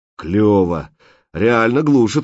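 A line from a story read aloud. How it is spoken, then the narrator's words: Joyful surprise. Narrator (Russian): радостно удивился он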